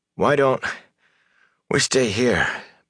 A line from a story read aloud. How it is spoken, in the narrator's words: Perrin panted